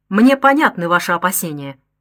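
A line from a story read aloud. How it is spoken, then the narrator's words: Sharp, offended objection. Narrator (Russian): резко возразила оскорбленная в своих чувствах Клавдия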